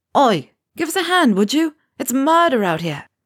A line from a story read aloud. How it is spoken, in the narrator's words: Ron is yelling